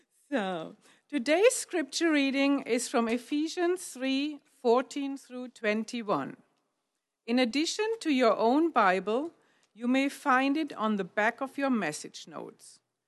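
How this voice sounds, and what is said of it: Speaks with a noticeable accent. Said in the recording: “Forgive my accent, please.”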